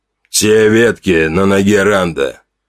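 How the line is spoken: Muffled question. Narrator (Russian): глухо спросил Горм

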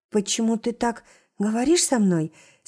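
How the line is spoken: Trembling voice. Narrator (Russian): спрашиваю дрожащим голосом

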